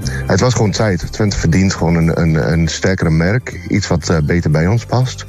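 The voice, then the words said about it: British accent speaking Dutch. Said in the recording (Dutch): “je hoort het ook in mijn accent waarschijnlijk. Ik kom hier niet oorspronkelijk vandaan ... Britse tukker”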